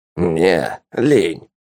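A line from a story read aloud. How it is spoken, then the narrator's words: Dismissive snort. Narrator (Russian): хмыкнул Полос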